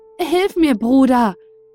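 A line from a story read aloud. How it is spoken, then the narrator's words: Soldier calling out. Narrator (German): rief der Soldat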